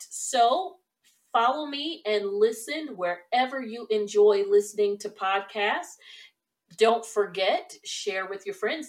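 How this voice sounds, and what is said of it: Slightly hoarse voice. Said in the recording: “it sounds like I may be losing my voice ... I just got a little hoarse”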